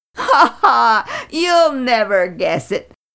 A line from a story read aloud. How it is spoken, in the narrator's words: he laughed in pride